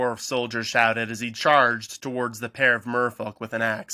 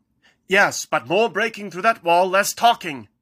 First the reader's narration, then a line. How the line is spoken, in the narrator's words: Kyral shouted